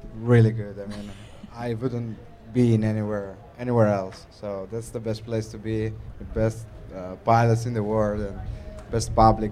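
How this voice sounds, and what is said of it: Italian-accented English. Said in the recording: “I'm from Italy ... they could tell you had an accent ... I come from Northeast Italy, near Venice”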